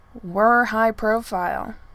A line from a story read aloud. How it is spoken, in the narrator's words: Gell had told her sternly